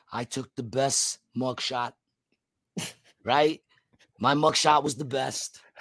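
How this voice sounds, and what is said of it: Trump impression in own voice. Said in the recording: “that Trump impression ... it's still kind of your voice, but in the mannerism of Trump”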